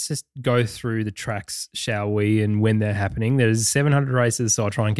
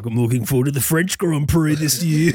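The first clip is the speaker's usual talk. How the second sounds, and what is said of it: Imitates another person's voice, poorly. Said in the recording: “that was the worst impression I've ever heard. ... At least I'm doing an impression.”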